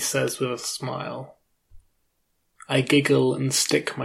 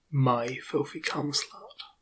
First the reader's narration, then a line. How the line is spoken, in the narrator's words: whispers to me